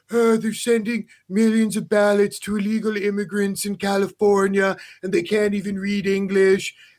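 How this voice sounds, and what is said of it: Imitates another person's voice. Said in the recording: “that's a great Alex Baldwin impersonation”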